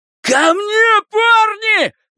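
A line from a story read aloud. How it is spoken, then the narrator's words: Shouting. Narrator (Russian): прокричал он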